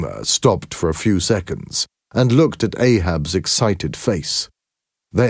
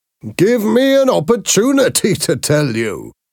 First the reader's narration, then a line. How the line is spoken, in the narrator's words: said Boomer with a laugh